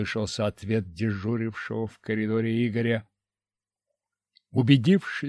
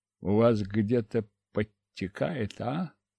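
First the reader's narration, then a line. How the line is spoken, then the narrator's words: Lazy question. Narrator (Russian): Лениво поинтересовался я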